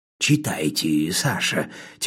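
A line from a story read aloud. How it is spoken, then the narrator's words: Quiet request. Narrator (Russian): тихонько попросил Федя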